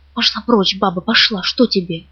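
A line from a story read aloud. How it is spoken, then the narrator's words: Whisper. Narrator (Russian): таким же шепотом говорит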